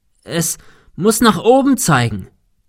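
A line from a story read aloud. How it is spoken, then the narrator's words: Shouting into wind. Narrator (German): rief Thomas dem Wind entgegen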